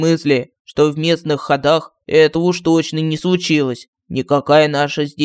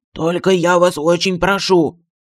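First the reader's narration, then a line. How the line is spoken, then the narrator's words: Pleading. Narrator (Russian): взмолился Мафусаил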